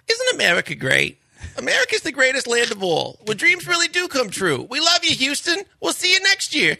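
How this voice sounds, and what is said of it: Impression of Les Alexander. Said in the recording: “You did Les Alexander pretty good, too ... That was his championship speech.”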